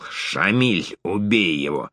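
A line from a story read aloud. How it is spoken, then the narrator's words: Hissed. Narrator (Russian): прошипел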